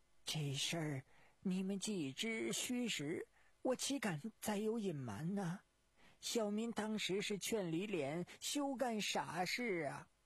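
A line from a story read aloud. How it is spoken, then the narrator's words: Mournful, whining. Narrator (Chinese): 温文元 哭丧着脸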